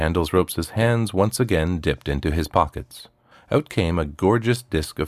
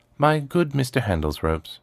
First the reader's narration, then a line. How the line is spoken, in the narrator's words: he said